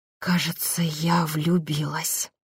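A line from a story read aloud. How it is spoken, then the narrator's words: Anxious whisper. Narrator (Russian): с беспокойством прошептала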